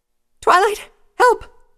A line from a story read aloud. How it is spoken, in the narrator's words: Pinkie Pie cried out